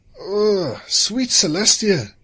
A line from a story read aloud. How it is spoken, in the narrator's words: Anvil moaned